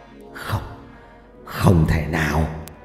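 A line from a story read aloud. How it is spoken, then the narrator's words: Disbelieving muttering. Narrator (Vietnamese): Ông thầy Trà, lẩm bẩm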